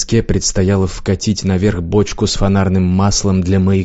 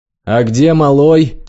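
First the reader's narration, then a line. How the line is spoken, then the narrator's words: Shout. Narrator (Russian): крикнул бакенщик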